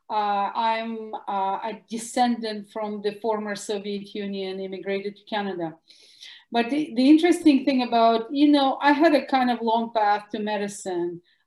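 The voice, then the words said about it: Russian accent. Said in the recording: “As you can hear from my Russian accent”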